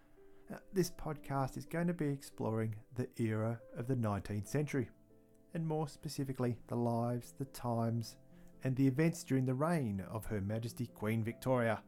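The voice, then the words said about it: Antipodean (Australian/New Zealand) accent. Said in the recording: “I'll be your Antipodean host for the podcast. And yes, I'm sure my accent gave that away anyway.”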